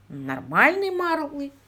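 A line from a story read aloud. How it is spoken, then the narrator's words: Grunted. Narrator (Russian): буркнул он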